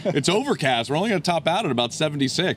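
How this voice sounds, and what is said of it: Mimics a TV weather forecaster. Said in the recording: “I sound like my old pal Dave Roberts on Channel Six here”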